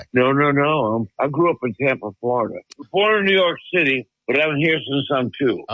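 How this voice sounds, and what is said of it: Southern American accent. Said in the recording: “that great Southern accent ... Oh, you have an accent”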